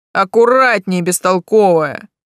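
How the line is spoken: Worried grumble. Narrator (Russian): обеспокоенно проворчал голос

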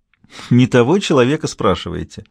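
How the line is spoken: Loud laughter. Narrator (Russian): расхохоталась Никола

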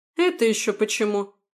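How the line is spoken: Snapped retort. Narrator (Russian): огрызнула Станислава

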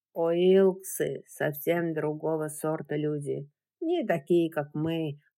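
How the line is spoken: Slow, halting. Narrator (Russian): продолжал Джеральд, все так же медленно подбирая слова

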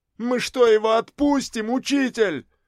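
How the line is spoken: Frantic scream. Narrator (Russian): истошно завопил Гришаня

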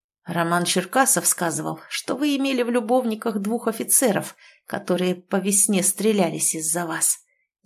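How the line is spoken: Hoarse declaration. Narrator (Russian): заявил он хрипло

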